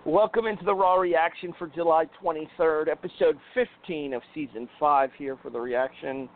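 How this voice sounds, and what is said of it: Congested, sick-sounding voice. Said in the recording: “I sound like crap. I'm sure you guys can hear it in my voice. ... getting over a sinus infection”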